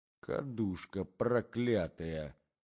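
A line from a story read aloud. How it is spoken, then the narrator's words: Low muttering woman. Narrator (Russian): пробормотала в полголоса Марья Александровна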